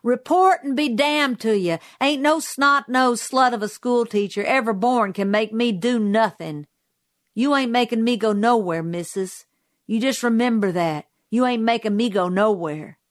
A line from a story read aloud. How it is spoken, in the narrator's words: Safely out of range, he turned and shouted